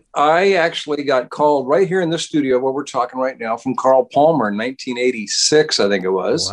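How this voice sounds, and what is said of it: American accent. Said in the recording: “You're obviously an American, as we can tell from your accent”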